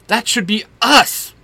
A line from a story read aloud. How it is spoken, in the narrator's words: Bobby shouts